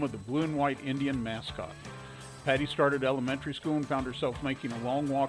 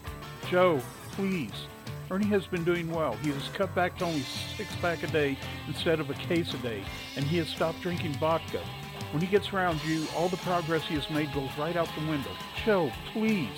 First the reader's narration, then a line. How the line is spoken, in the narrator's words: pleaded